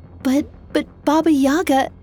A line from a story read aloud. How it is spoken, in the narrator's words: Vasilisa stammered